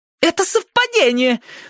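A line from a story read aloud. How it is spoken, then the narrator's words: Shriek. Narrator (Russian): взвизгнула Мэри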